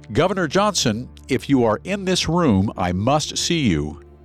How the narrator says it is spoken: Farwell shouted

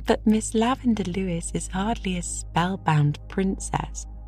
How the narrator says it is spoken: laughed Diana

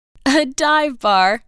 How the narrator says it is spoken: laughed Cecilia

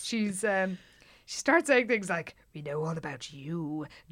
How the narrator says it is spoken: Jan said in a sinister voice

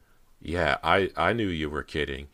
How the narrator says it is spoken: said nervously

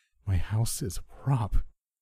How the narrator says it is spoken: greeted me sadly

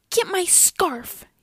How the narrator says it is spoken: yelled one sister

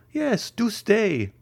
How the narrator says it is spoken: added La Carconte in a tremulous voice

